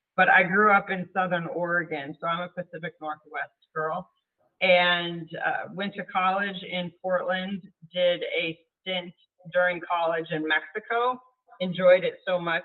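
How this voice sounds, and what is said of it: Midwestern American accent. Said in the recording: “hence the Midwestern accent”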